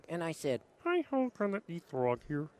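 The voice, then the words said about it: Kermit the Frog cartoon voice. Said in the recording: “can you do an impression of Kermit the Frog? ... that's a hell of a Kermit the Frog you got there”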